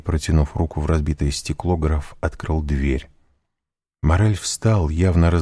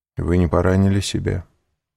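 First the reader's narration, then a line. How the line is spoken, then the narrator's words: Cold question. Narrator (Russian): холодно спросил Морель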